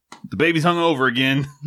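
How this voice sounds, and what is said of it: Put-on redneck accent. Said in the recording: “I don't know why I did that accent. That's not my my accent ... Other than be a redneck.”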